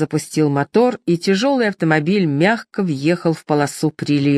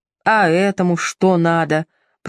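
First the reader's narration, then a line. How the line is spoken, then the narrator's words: Grumbling. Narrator (Russian): проворчал Кэмпион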